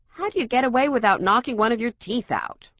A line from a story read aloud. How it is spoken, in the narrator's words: Rush said